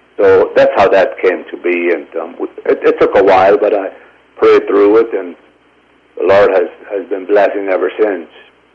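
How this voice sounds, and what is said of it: Foreign, German-sounding accent. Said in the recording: “accent doesn't even sound American ... You actually sound like you're from a foreign country. You sound like you're possibly from Germany or Austria or something like that, or one of the Baltic countries.”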